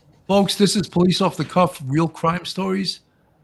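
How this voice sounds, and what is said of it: Usual voice. Nothing is said of it.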